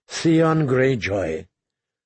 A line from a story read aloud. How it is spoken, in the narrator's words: Tyrion sighed